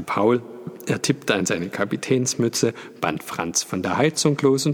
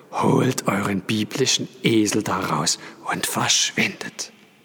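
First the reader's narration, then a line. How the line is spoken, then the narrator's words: Groaning. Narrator (German): stöhnte er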